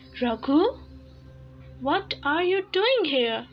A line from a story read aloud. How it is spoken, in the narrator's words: the owner of the house exclaimed in surprise